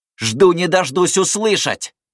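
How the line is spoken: Shouted. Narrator (Russian): выкрикнул он напоследок

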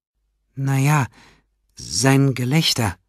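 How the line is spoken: Hesitant answer. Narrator (German): antwortete die Krankenschwester zögernd

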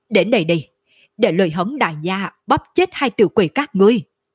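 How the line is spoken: Fierce loud roar. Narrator (Vietnamese): Lôi Hống sắc mặt biến đổi, trên mặt lộ ra vẻ dữ tợn, trong mắt lộ ra chiến ý đậm đặc, cao giọng gào thét

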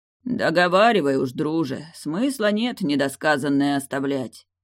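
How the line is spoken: Deep bass voice. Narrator (Russian): пробасил Далиль

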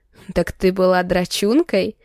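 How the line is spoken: Laughing. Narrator (Russian): рассмеялся Архаров

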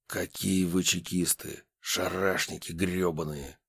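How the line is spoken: Hiss. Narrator (Russian): Прошипел

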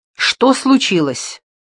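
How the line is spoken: Man shouting. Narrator (Russian): закричал муж

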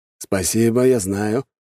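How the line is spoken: Snorting reply. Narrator (Russian): хмыкнул в ответ Пожарский

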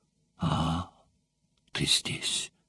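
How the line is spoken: Tender voice after sigh. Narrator (Russian): глубоко вздохнув, сказала нежным голосом

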